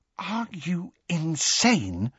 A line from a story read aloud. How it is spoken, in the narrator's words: said Hermione in a hushed voice